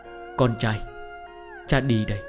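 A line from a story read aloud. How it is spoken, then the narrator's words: Muttering while walking away. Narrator (Vietnamese): Nam nhân vừa đi vừa lẩm bẩm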